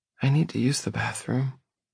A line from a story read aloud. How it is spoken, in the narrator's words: she whispers